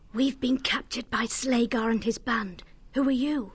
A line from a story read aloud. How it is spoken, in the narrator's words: Orma whispered urgently